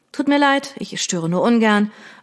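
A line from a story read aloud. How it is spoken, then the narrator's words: Flat, toneless. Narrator (German): erklärte tonlos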